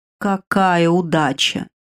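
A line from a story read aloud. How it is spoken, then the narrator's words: Drawled. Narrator (Russian): протянул идущий рядом со мной Кер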